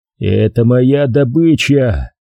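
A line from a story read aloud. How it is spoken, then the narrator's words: Playful growl. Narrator (Russian): голосом Шерхана прорычал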